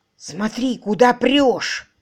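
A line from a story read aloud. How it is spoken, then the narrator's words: Grumbling male voice. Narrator (Russian): проворчал мужской голос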